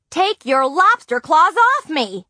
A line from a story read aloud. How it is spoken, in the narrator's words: Nancy yelled